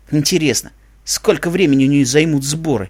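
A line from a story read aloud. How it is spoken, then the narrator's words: Grumbling. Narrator (Russian): проворчал Череп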